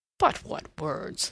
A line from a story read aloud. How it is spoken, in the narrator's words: laughed Levasseur